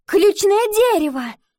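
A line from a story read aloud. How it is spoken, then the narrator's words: Matter-of-fact exclamation. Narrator (Russian): воскликнула Ива так, будто о чем-то само собой разумеющемся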